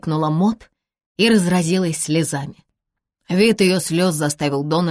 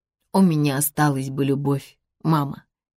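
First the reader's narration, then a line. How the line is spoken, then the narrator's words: Quiet. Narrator (Russian): тихо сказал Дональд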